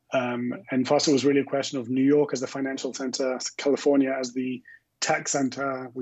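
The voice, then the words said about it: Faint London English accent. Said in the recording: “the remnants of my accent ... I'm originally from London”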